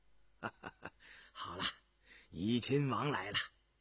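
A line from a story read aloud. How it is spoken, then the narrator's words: Laughing. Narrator (Chinese): 张廷玉笑着回头对雍正道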